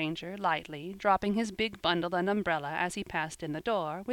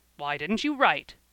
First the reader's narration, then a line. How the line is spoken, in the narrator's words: asked the old gentleman, testily